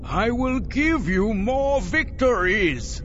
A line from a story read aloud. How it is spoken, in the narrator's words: Savang La cried